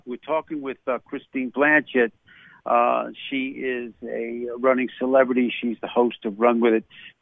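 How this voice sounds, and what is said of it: New York accent. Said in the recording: “geez, you got that New York accent.”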